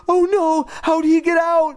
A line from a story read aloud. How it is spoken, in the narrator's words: Lindy cried